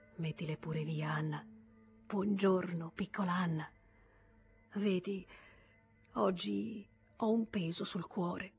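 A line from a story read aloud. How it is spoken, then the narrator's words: Quiet added remark. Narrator (Italian): soggiunse a voce bassa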